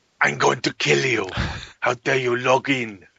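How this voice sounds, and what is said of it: Put-on Mexican accent. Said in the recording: “I don't know where that accent came from. Yeah, salty, suddenly they turned Mexican.”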